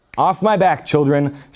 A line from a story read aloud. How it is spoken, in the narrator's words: shouted Aslan